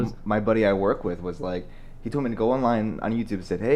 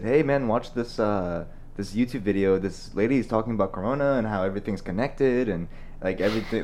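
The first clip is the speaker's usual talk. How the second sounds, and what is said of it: Put-on Hispanic accent. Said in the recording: “Hispanic? ... I was trying to do his accent. ... I kind of noticed. ... Dominican. He's from Puerto Rico. ... I noticed the accent.”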